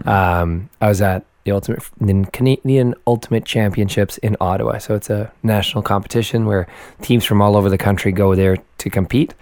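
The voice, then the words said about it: Hoarse, raspy voice. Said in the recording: “my voice is a bit shoddy and I sound like I've been smoking 60 packs a day since I was 2 years old”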